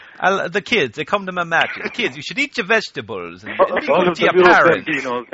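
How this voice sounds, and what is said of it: Bad exaggerated Italian-style accent. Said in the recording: “dressed like Super Mario with an accent worse than Santino Marella”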